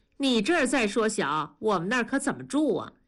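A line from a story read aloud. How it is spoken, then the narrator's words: Plain. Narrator (Chinese): 说着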